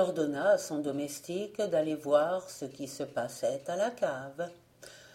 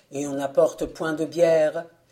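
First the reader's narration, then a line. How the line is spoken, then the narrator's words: Father's exclamation. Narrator (French): s'écria le père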